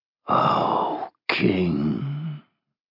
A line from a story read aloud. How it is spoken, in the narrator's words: the dragon murmured, wheezing